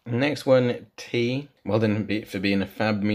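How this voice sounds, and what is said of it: Usual voice. Nothing is said of it.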